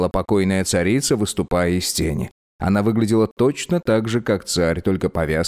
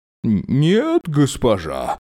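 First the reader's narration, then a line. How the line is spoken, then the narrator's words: Bleating, trembling, forced cheer. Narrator (Russian): Проблеял Джерн дрожащим, наигранно бодрым голосом человека, идущего по канату над пропастью безумия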